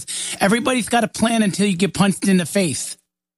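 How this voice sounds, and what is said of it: Poor imitation of another person's voice. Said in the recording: “my terrible Mike Tyson impression”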